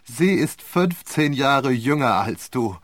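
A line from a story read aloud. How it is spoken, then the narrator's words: Laughing reply. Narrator (German): erwiderte er lachend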